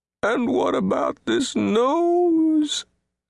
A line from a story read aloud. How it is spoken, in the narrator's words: cried, wounded deeply by this new sorrow